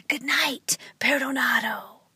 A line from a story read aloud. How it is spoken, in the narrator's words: the man with the broom whispered